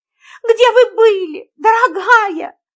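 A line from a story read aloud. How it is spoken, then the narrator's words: Tearful tone. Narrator (Russian): плачущим тоном произнесла мисс Фридлендер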